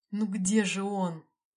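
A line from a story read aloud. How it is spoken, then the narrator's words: Groaning. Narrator (Russian): простонал руководитель миссии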